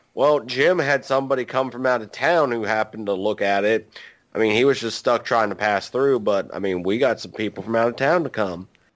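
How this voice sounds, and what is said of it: Put-on West Virginia accent. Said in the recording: “I am sorry to West Virginia. That accent is too natural for me just to pop into.”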